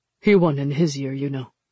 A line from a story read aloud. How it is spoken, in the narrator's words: Jung said flatly